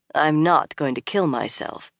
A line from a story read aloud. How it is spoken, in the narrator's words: Egwene said dryly